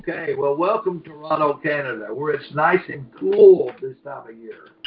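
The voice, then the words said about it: Kentucky Southern US accent. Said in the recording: “I'm from Country Fried Kentucky, so I don't know if you can understand my accent very well”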